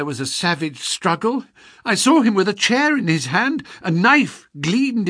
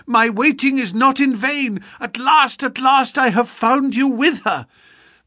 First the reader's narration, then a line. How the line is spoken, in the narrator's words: of a dark, frantic face, of a woman's voice which screamed in French